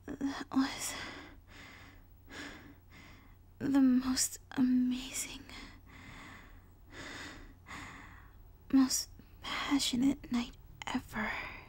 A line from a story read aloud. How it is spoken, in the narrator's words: she sighed